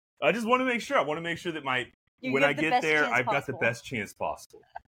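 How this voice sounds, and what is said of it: American accent. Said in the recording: “Because you're American ... I like your accent that you have now. I think it's cool.”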